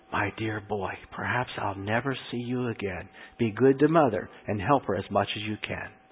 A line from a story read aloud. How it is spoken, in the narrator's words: He whispered